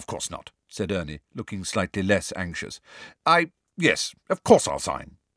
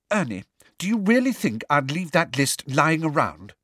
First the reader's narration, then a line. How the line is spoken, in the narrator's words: said Hermione testily